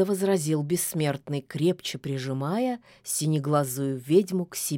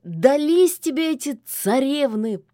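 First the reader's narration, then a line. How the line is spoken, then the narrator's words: Near-howl of despair. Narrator (Russian): почти взвыл от отчаяния бессмертный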